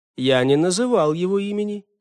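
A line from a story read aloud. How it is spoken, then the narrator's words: Plain. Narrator (Russian): ответил Карау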